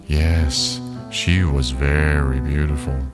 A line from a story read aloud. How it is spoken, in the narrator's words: the old woman said sadly